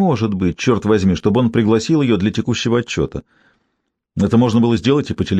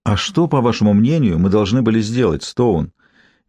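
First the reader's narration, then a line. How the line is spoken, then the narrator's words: Soft question. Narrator (Russian): мягко спросил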